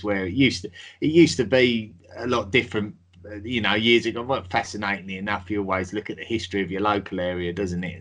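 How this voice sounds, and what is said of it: Traditional London Cockney accent. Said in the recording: “hence the accent. It's very sort of traditional London accent, mine, or Cockney”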